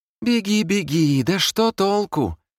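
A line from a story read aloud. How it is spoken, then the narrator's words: Girlish shout, lycanthrope. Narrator (Russian): крикнул ликантроп почти девичьим голосом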